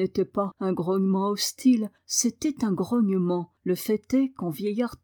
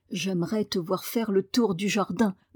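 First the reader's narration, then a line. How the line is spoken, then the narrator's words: Grunted. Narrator (French): grogna Ben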